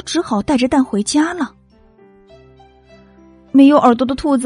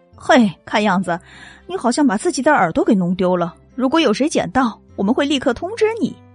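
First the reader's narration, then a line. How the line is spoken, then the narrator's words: Sly, mocking grin. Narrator (Chinese): 坐在写字台后面的男人一脸坏笑的对没有耳朵的兔子说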